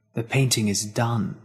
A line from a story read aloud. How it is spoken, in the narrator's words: the devil whispered